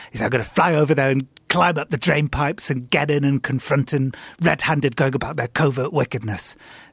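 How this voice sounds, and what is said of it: Put-on semi-American accent. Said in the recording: “I apologize for my semi-American accent I'm doing here.”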